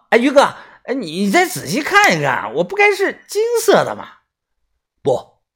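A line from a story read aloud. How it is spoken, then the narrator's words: Loud. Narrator (Chinese): 豆芽仔大声的说道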